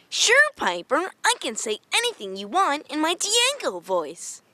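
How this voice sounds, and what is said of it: Cartoon character voice. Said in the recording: “in your Diego voice”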